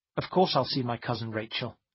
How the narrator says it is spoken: I said in a hard, cold voice

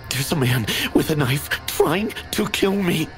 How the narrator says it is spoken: gasped

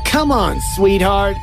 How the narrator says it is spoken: he called, with his voice taunting

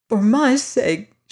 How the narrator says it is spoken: she begged him

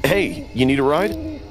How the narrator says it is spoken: I called out

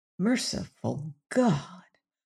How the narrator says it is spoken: muttered Robert Cairn

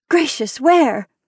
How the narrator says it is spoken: cried the other girl

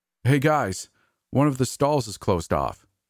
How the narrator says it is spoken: called out

